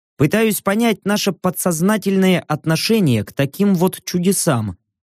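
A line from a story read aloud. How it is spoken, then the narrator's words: Plain. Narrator (Russian): ответил я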